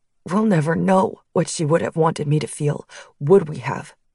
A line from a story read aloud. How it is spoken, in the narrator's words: Chris asked, his voice sharp